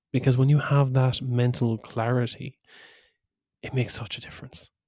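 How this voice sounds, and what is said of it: Whispering. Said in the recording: “I'm whispering,... Maybe it's just for effect”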